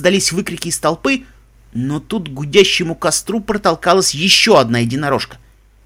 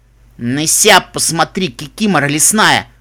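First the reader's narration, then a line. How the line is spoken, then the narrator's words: Snapping back. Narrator (Russian): огрызнулась Эпплтини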